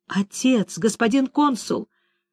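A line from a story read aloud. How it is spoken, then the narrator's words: Trembling voice. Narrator (Russian): дрожащим голосом произнес он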